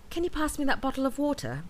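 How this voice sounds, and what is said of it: General British accent, less Mancunian. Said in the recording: “This still sounds like a general British accent, but it definitely sounds less Mancunian.”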